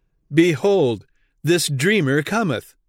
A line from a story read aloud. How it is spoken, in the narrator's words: they cried in mockery